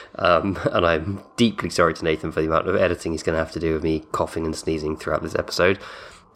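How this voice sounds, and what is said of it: Congested, cold-affected voice. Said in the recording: “Apologies for the state of my voice. I've got a cold.”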